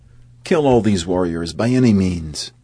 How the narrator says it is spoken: Iravan laughed loudly, calling out to his followers

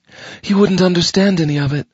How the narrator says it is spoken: she said coolly

